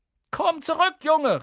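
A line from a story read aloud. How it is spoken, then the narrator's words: Woman calling out. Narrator (German): rief sie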